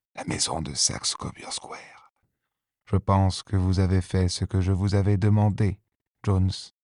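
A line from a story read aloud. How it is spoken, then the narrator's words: Whispering. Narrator (French): chuchota Holmes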